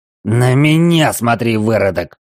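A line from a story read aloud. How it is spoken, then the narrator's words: Barking shout. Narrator (Russian): рявкнул он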